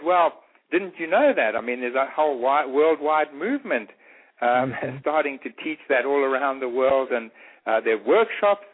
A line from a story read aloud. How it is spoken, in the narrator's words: he just laughed and he said